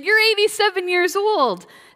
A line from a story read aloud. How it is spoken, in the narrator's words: They all piped up and said